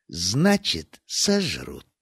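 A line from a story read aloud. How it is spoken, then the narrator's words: Muttered. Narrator (Russian): пробормотала Бавари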